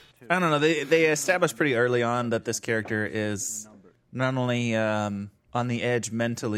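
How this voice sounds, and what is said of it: Usual voice. Nothing is said of it.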